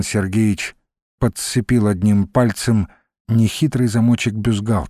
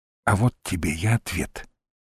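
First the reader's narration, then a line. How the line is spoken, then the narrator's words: Whisper. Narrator (Russian): шепнула она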